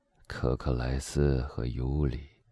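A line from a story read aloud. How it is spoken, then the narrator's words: Murmured. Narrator (Chinese): 莫雷尔喃喃的说道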